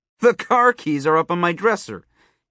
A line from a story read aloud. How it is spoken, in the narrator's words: he laughed